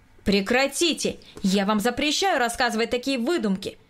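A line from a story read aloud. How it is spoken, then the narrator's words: Louder shouting. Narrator (Russian): Громче прежнего прокричал Николай Васильевич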